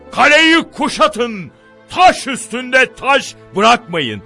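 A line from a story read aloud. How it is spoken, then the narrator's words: Angry command. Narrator (Turkish): diye emreder öfkeyle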